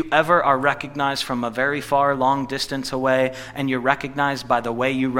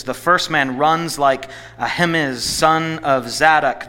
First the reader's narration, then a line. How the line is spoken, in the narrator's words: the watchman said